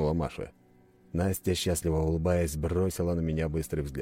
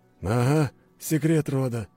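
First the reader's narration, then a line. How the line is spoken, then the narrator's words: Amused snort. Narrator (Russian): хмыкнул Павел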